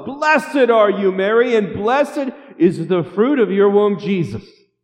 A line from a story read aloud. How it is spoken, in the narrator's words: She yells out the top of her lungs